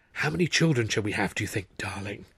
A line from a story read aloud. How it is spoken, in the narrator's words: she breathed